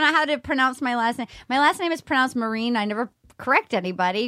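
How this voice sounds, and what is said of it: Usual voice. Nothing is said of it.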